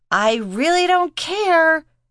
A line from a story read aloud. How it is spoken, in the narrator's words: Reese yelled back